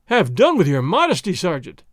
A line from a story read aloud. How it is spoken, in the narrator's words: Don Diego cried